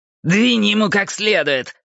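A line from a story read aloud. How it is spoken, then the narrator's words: Shouted. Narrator (Russian): выкрикнул прыщавый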